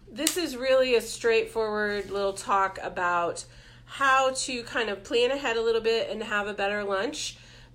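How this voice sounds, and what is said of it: Congested voice from a cold. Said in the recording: “I have a little bit of a cold.”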